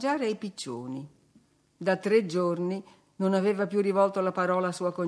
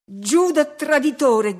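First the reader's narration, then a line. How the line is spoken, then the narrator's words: Shouted. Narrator (Italian): gridai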